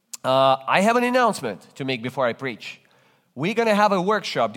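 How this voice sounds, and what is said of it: Non-native English accent, Soviet origin. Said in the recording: “If you detect an accent in my speaking, you're right. I speak with an accent because English is not my native language. ... from the Soviet Union”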